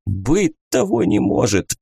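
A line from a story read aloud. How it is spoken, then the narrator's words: Old man's hoarse wheeze. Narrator (Russian): просипел снизу старик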